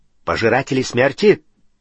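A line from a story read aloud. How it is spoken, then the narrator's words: Sharp question. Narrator (Russian): резко переспросил Тед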